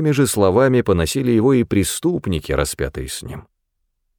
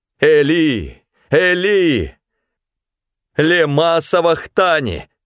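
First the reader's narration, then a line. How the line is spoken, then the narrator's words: Loud cry. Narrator (Russian): Иисус вскрикнул громким голосом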